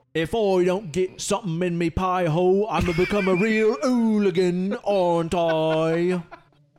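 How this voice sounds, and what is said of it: Put-on British accent. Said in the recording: “from across the pond ... Nailed his accent.”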